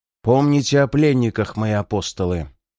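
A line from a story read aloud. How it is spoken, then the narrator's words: Demonic growl. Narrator (Russian): прорычал демонической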